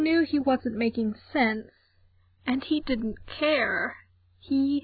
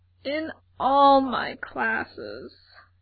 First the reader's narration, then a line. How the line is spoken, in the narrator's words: Gerard moaned